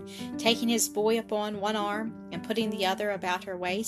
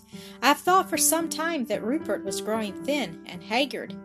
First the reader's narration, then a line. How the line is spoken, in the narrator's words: said brokenly, tears filling her eyes